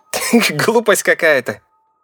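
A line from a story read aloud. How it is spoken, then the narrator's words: Laughing. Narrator (Russian): рассмеялся Гоша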